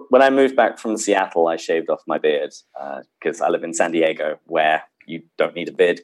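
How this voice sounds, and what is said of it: British accent. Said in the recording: “I have a British accent”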